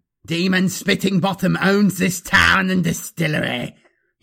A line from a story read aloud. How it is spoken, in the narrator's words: he roared triumphantly